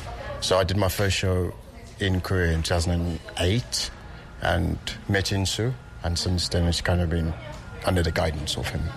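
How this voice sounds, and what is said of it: South African accent. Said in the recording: “Gotta love that South African accent.”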